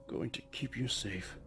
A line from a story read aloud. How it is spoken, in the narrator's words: he murmured